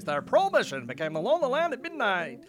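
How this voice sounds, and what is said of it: Old-time radio announcer voice. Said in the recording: “I'm going to do my old-time radio voice.”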